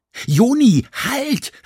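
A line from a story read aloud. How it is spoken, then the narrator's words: Shouted. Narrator (German): schrie Mia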